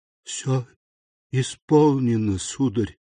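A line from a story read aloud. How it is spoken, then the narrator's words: Muffled, tearing rasp. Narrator (Russian): сказала она с глухим хрипом, который словно разрывал ей гортань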